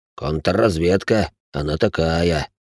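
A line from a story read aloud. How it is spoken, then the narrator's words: Agreeing deep bass. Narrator (Russian): согласно пробасил бывший лейтенант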